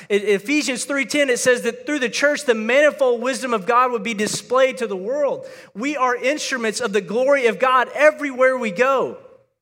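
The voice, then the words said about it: Yelling, fired-up preaching. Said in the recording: “I'm yelling. I'm just so fired up about this.”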